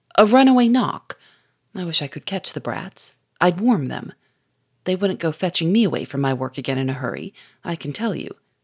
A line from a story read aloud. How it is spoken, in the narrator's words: said in a grumbling tone